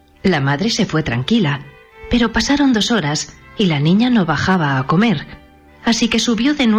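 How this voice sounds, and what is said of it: Usual voice. Nothing is said of it.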